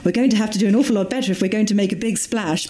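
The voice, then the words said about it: Posh, well-spoken impression of Jan. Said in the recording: “Quite a good Jan impression. ... She is incredibly well spoken. ... Beautifully well spoken. ... she's hoity-toity.”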